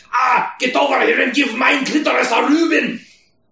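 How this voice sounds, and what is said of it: Exaggerated mock German accent, drifting Scottish. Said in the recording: “someone with a weird accent saying Rubin, like some crazy, like, German powerlifter chick ... It kind of turned Scottish.”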